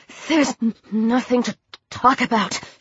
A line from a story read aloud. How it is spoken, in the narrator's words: she stammered